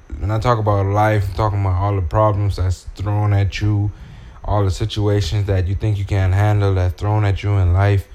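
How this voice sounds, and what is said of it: Strong Bahamian accent. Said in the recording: “I'm from the Bahamas ... I gotta stick to my roots, man ... If you hear the accent is strong, just listen close”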